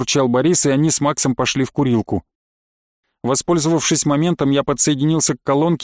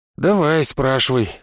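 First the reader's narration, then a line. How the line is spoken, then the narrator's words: Sighing. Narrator (Russian): вздохнул я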